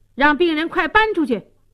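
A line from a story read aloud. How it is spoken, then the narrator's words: Arrogant yelling. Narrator (Chinese): 六儿狗仗人势，大喊大叫说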